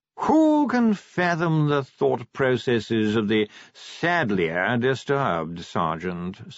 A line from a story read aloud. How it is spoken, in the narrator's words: said Sir Reynold wearily